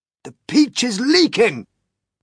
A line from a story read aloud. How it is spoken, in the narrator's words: shouted the old green grasshopper